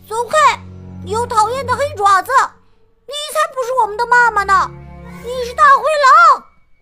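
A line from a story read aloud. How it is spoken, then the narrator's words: Loud shouting. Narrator (Chinese): 他们大声喊道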